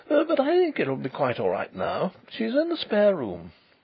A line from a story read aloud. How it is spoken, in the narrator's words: he reported with a nervous laugh